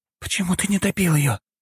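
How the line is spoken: Quiet question. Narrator (Russian): тихо спросила Дункан

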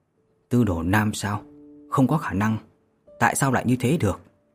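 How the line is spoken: Astonished mutter. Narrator (Vietnamese): Vô Lâm kinh ngạc lẩm bẩm

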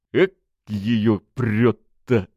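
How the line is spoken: Muttered from another room. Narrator (Russian): Процедил вслед ей Бочаров из другой комнаты

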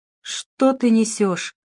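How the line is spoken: Gloomy. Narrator (Russian): мрачно проговорил он

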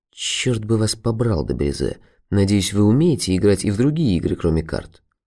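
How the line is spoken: Whispered. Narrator (Russian): Граф де Лабуш прошептал

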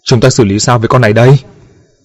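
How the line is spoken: Shouting while fleeing. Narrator (Vietnamese): chạy trối chết, vừa gào lên

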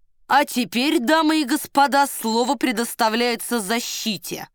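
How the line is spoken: Loud announcement. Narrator (Russian): громко объявил Девре

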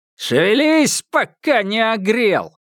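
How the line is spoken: Guards shouting angrily. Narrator (Russian): кричали со злобой стражи

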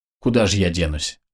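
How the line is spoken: Sigh. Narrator (Russian): вздохнул Вичко

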